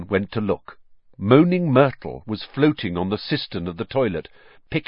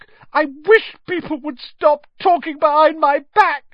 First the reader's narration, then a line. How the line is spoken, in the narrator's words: said Myrtle, in a voice choked with tears